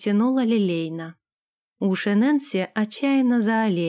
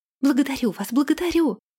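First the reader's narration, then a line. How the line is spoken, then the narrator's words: Fervent exclamation. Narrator (Russian): пылко воскликнула Нэнси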